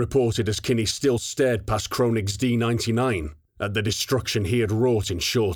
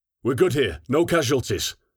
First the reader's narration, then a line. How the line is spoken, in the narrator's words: Marante reported in her usual clipped tone